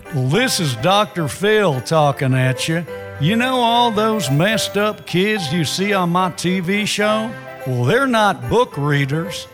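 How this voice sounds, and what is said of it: Impression of Dr. Phil. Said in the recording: “Celebrity voice impersonated.”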